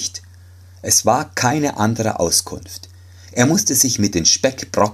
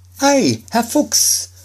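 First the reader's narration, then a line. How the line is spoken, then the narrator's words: Calling. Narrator (German): rief Schneiderlein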